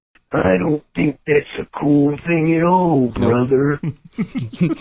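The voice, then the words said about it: Slowed-down wrestler impression. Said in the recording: “that Macho Man impression was on half speed”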